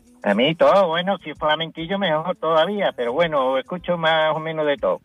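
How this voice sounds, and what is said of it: Andalusian accent from Cádiz. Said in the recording (Spanish): “Ese acento me está... ¿De dónde es ese acento que tienes? ... pues de CAI ... te delata.”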